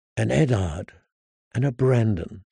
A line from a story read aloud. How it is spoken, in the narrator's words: she sighed softly